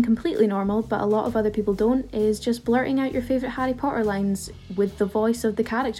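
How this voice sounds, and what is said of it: Usual voice. Nothing is said of it.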